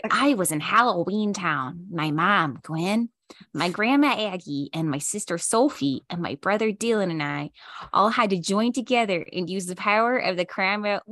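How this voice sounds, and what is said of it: Put-on Midwestern American accent. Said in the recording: “I'm giving her a ... Midwest Midwestern accent.”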